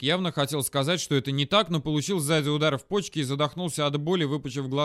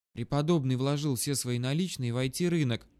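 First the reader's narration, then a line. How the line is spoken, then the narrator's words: Sudden whisper from behind. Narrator (Russian): вдруг прошептал кто-то сзади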